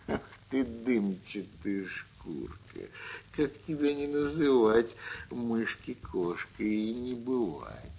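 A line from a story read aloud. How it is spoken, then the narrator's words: Laughing. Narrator (Russian): Засмеялась кошка-мурка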